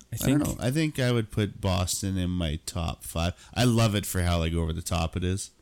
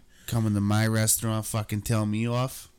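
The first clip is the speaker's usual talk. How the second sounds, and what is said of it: Put-on New York Italian accent. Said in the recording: “the New York Italian accent's pretty iconic”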